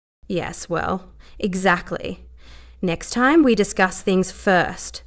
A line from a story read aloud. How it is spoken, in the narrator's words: she said sternly